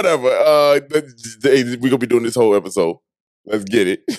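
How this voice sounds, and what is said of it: Usual voice. Nothing is said of it.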